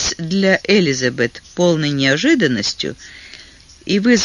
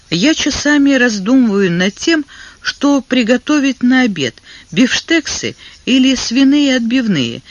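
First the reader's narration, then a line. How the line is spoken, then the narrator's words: Laughing. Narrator (Russian): смеясь проговорила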